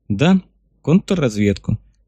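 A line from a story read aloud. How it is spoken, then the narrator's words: Calm scientist agreeing. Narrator (Russian): спокойно согласился ученый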